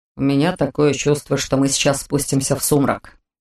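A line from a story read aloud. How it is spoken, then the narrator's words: Grumbling. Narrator (Russian): проворчал Корт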